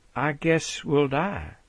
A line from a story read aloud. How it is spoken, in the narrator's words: The Second Lady replies softly